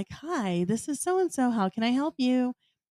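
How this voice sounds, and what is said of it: Polite phone voice. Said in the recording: “phone voice. Like when you get on the phone”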